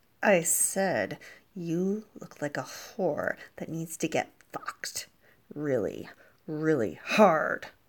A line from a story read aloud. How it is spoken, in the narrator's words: he replied, practically growling